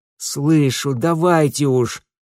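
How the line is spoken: Groaned. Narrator (Russian): простонал Митя

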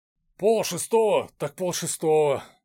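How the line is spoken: Sighing. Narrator (Russian): вздохнул Дмитрий

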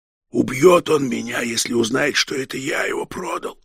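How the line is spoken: Whisper. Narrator (Russian): шепотом сказал Егоркин

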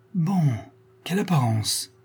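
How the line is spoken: Cried out. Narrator (French): s'écria

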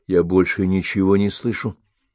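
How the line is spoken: Whisper. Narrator (Russian): прошептала

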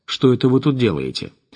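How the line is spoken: Unpleasant chuckle, mumbling man. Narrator (Russian): Тот же коренастый мужичок неприятно хохотнул и пробубнил

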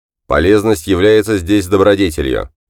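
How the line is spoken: Cold voice. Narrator (Russian): холодно произнес голос

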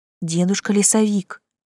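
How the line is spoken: Quiet call. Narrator (Russian): негромко позвала я

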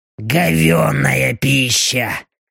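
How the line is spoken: Displeased mutter. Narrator (Russian): недовольно буркнула Белочка

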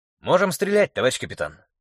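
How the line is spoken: Calm report. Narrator (Russian): спокойно доложил сержант Алексею

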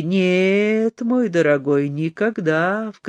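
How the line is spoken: Ingratiating. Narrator (Russian): вкрадчиво сказал Теодореску

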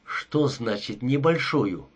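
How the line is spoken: Irritated question. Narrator (Russian): раздраженно спросил Кен

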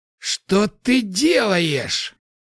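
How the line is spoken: Furious roar. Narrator (Russian): Яростно проревел Вильгельм

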